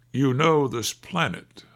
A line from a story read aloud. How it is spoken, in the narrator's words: said the voice